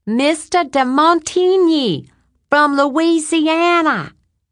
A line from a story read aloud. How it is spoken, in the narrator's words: she screamed